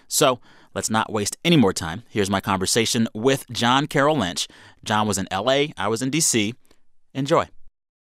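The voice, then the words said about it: Smooth, resonant radio voice. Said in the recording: “You have a terrific radio voice.”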